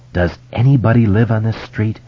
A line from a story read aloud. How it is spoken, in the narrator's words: Beverly asked in a low voice